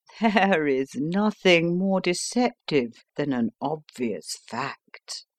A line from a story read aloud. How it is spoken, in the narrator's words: answered, laughing